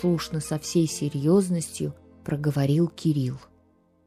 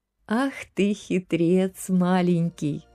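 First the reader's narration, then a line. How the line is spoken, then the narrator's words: Laughing mother. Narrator (Russian): засмеялась мама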